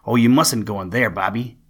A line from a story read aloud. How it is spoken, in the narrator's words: cried